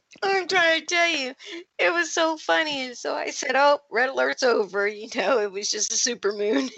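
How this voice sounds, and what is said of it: Usual voice. Nothing is said of it.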